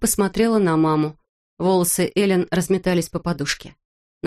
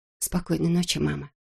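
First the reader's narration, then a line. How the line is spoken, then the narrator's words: Whispered. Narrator (Russian): шепнула она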